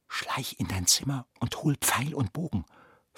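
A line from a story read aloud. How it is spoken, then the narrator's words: Whisper. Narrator (German): flüsterte Lena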